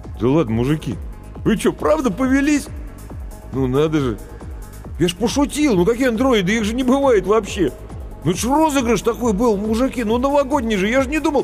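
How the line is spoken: Confused babbling. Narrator (Russian): растерянно лопотать

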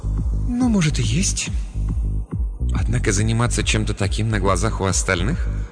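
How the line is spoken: Sighing whisper. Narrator (Russian): Она вздохнула и прошептала

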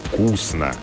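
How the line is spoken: Approving creaky bass. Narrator (Russian): одобрил он своим скрипучим басом

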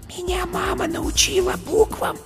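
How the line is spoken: Whispered. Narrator (Russian): шепотом сказала зайка

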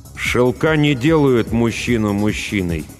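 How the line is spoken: Through gritted teeth. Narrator (Russian): добавил сквозь зубы

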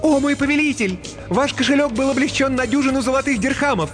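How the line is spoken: Ringing, cheerful announcement. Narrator (Russian): Джинни звонким пионерским голосом сообщила

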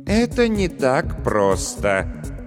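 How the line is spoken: Sighing. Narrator (Russian): тот, который повторно вздохнул

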